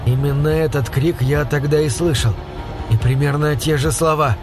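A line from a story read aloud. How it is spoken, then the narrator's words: Almost calm. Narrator (Russian): он почти спокойно произнес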